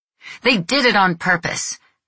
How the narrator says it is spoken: Reno yelled at Stefano, beside himself

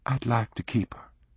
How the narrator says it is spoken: Lucy said quietly

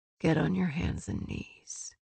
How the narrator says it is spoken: he ordered, his voice so low she could barely understand him

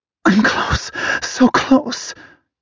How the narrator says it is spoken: she gasps, like she's hanging on by a thread as she chases the knife's edge of desire

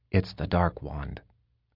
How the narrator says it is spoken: he said quietly

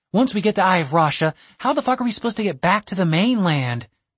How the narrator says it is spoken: She sighed in frustration

